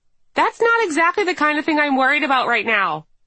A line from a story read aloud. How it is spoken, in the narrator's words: I yell with mock rage